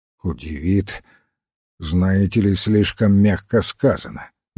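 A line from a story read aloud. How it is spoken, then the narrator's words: Gloomy. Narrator (Russian): мрачно ответил Пейн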